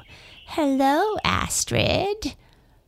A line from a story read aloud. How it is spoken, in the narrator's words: she cackled